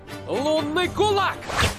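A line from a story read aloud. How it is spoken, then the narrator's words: Shouted battle cry. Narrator (Russian): Прокричал человек в шлеме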